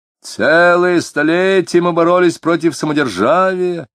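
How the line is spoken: Drunken shout. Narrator (Russian): нетрезвым голосом прокричал кто-то

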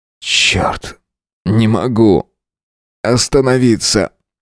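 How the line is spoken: Sobbing, strained. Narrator (Russian): всхлипывая, выдавил я

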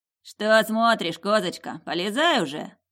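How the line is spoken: Smirking snort. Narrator (Russian): хмыкнул

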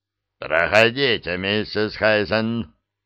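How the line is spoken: Growled. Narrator (Russian): Стеббинс прорычал ей в спину

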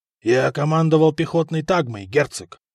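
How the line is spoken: Husky voice, Latin. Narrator (Russian): хрипловатым голосом ответил на латыни Деметрий

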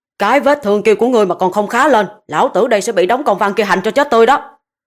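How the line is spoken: Roaring through gritted teeth. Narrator (Vietnamese): Công Tôn Ngân nghiến kèn kẹt, gầm lên

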